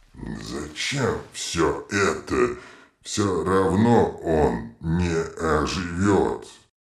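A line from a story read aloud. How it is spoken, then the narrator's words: Muttering. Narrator (Russian): бормотал вулкан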